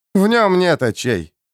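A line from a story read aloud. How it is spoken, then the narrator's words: Sad mutter. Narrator (Russian): печально буркнул Джоакин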